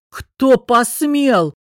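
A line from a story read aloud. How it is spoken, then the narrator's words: Roaring. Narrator (Russian): Дарил взревел, иначе и не скажешь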